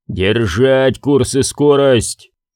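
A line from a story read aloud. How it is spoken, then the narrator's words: Roaring. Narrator (Russian): проревел Ярл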